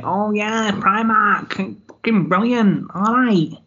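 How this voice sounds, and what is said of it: Put-on regional English accent. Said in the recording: “that was ... version of a Mike accent.”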